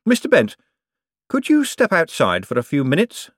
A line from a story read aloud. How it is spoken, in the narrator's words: said Moist brightly